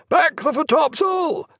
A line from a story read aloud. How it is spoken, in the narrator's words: The enormous voice that cried